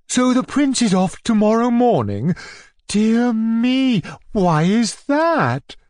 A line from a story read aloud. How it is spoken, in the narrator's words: inquired Natalia Dmitrievna very sweetly